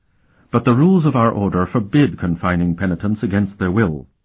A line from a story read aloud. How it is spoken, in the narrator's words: the Mother Superior said very firmly